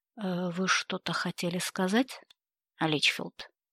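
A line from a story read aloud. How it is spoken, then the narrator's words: Even-voiced question. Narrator (Russian): ровным голосом поинтересовался он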